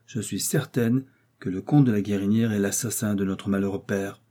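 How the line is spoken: Cold young woman's declaration. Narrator (French): déclara froidement la jeune fille

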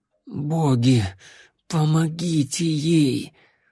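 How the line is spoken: Strained whisper. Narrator (Russian): с трудом прошептала вампирша

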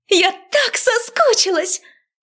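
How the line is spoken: Excited squeal. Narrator (Russian): Взвизгнула она

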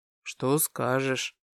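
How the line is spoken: Quiet, suppressing a smile. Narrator (Russian): тихо спросил, пытаясь сдержать улыбку

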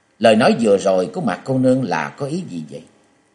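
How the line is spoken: Feigned cold laugh. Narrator (Vietnamese): Châu Thanh thầm kinh tâm, nhưng ngoài mặt vẫn giả vờ lạnh lùng cười nói

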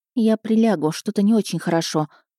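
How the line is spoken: Muttering. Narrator (Russian): пробормотала

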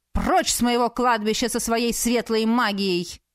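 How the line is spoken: Barked. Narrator (Russian): рявкнул магистр Шарес

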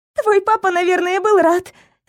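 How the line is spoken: Strained, barely able to speak. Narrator (Russian): выдавила я, едва смогла говорить

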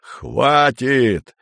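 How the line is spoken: Yelling. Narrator (Russian): заорал Андрей

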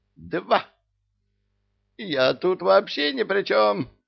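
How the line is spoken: Shrill squeal. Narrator (Russian): неприлично взвизгнул Ио дьявола

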